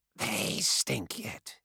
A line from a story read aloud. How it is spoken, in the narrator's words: whispered